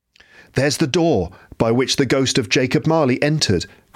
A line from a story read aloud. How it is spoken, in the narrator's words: cried Scrooge